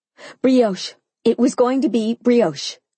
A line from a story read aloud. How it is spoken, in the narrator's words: I answered quickly, my tone frantic